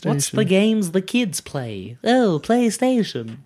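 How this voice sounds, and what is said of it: Imitates another person's voice. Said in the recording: “That's my J.K. Rowling impression.”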